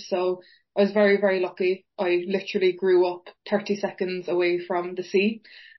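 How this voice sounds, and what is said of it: Irish accent, from Cork. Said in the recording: “your very lovely accent ... my accent and myself are from a beautiful place called Fountainstown Beach, which is in County Cork in Ireland”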